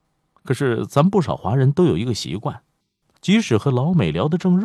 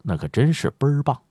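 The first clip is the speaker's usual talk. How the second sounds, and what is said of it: Put-on Beijing dialect. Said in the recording (Chinese): “用北京话来说”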